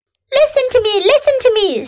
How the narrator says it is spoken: screamed the goose

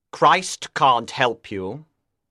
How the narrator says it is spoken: Lucifer said coldly

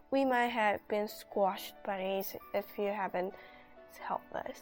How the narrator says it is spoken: Lydia sighed

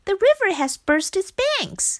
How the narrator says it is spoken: shouted Frog

